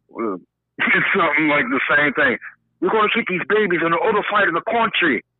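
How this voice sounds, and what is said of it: Attempted English accent, not convincing. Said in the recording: “I'm not very good at English accents.”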